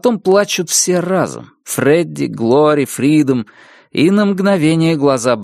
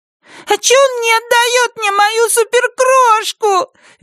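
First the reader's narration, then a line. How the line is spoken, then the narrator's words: Shrill snap, bursting into sobs. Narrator (Russian): визгливо огрызается Глори и тоже раздражается рыданиями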